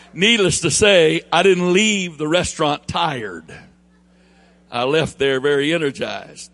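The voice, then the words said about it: Thick Southern drawl. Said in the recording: “That's a pretty thick accent you've got ... this southern drawl I have”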